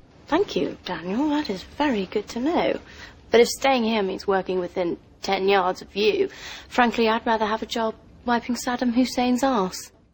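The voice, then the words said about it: Pitch-perfect British accent. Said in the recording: “As pitch perfect as that sounds to British ears”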